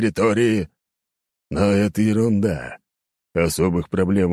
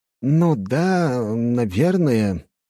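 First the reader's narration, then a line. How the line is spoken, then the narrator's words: Uncertain drawl. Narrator (Russian): как-то неуверенно протянул помощник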